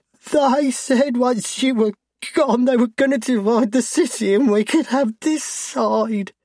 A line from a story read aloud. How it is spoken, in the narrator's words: he cries